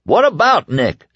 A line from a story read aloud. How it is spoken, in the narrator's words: Stu shouted